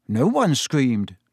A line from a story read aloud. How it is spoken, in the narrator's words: said Ron, more nervously still